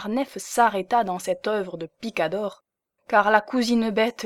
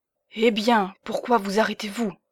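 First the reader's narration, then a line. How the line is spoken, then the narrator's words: Hollow voice. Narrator (French): dit-elle d'une voix creuse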